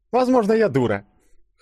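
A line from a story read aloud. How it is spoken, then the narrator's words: Scoffing hum. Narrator (Russian): хмыкнула девушка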